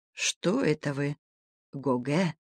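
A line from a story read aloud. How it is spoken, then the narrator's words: Quiet. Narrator (Russian): сказал ему тихо Сеглюмер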